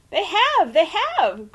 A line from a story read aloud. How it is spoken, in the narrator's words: shrieked